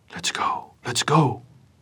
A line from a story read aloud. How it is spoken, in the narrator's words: whispered Wimpy in short gasps